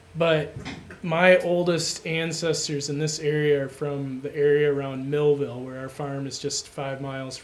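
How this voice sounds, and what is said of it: Minnesotan accent. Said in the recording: “I'm a native Minnesotan... my voice kind of gives it, my accent gives it away. I'm told it's getting stronger all the time.”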